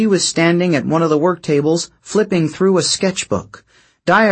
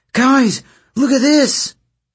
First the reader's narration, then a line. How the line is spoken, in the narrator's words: Nyssa cried out